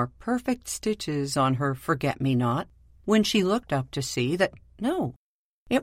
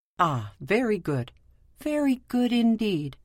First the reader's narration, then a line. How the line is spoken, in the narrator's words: he exclaimed